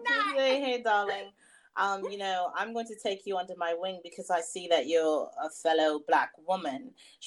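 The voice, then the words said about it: British accent impression. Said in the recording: “she has a, a ... A, a British ... accent.”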